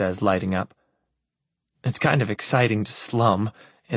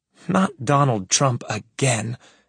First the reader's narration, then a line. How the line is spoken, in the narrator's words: Evelyn moans